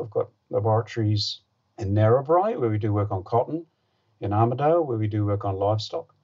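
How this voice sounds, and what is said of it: Slight New Zealand accent. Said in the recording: “I detect a slight New Zealand accent”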